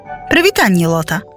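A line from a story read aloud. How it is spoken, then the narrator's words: Plain. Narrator (Belarusian): сказала мама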